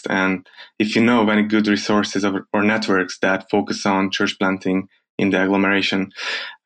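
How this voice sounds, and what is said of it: Hungarian accent. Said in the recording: “I grew up to love the Hungarian accent.”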